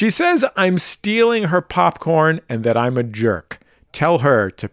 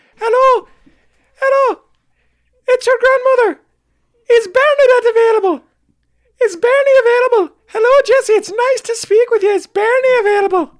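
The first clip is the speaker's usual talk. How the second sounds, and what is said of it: Impression of elderly grandmother on phone. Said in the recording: “This is my step-grandmother calling my house.”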